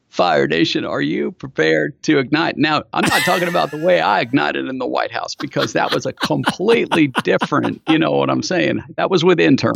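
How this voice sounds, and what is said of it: Imitates another person's voice. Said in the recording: “in Bill Clinton's voice”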